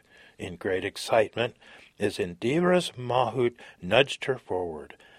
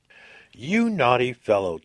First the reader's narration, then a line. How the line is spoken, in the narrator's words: teased Sinapa, laughing